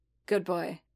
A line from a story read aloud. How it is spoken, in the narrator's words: Boba murmured, expression intent